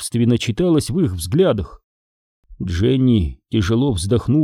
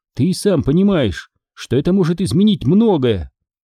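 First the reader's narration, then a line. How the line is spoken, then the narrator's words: Sharp speech. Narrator (Russian): резко произнесла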